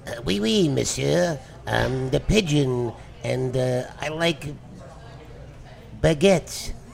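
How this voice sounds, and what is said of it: Put-on French accent, pigeon voice. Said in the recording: “Can you speak like a pigeon with a French accent? ... That is pretty good.”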